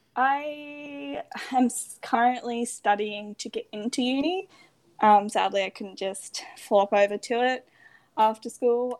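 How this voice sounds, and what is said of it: Australian accent. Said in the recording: “I don't know whether you can tell from my accent, but I am from the lovely Australia, specifically Queensland”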